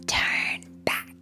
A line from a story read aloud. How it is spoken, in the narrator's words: the wind whispered